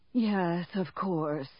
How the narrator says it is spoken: Kellering sighed

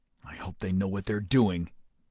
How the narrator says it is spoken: Deming muttered

